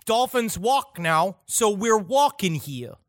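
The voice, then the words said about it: Put-on Brooklyn accent. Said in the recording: “you attributed the Brooklyn accent to the dolphins”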